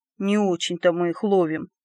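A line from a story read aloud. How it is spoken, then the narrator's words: Good-natured grumbling. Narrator (Russian): добродушно проворчал Колобок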